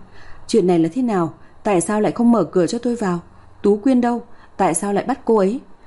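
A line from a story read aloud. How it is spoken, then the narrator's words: Angry yelling. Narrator (Vietnamese): Hai Lục gào lên tỏ vẻ tức tối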